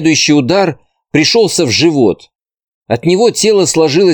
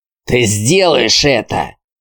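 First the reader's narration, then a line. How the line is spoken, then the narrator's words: Hissing bald man. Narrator (Russian): шипел лысый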